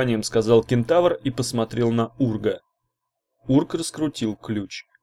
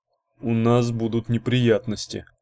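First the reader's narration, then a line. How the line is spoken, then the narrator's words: Grumbling. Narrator (Russian): буркнул Урк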